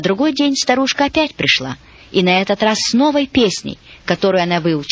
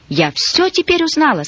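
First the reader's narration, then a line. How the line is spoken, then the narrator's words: Agitated, excited. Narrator (Russian): сказала она взволнованно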